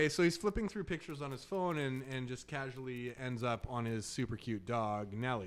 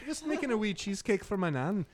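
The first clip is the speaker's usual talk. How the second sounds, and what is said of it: Put-on British accent, somewhat Scottish-Irish. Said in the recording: “You gotta say it in a British accent. ... that was a little Irish, but it's from the same islands. ... It's more Scottish.”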